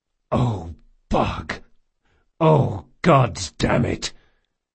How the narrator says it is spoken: The big man groaned

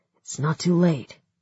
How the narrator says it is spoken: he said

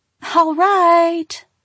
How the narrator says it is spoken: Kelsey cried

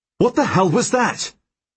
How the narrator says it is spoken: I bellow at Helene

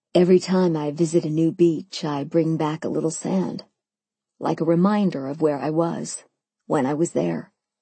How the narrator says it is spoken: he answered, his voice low and wistful

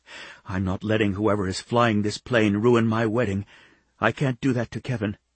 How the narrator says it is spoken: he whispered to her

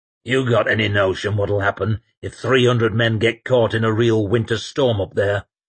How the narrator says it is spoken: grunted Sweet

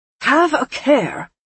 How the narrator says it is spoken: Gadfly exclaimed

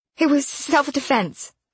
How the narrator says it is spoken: she blurted

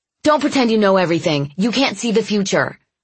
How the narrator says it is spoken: I snapped

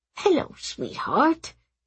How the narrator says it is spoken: he murmured

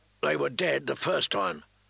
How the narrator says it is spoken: Sir Alistair snapped

